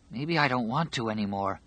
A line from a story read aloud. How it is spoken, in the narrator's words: Harold whispered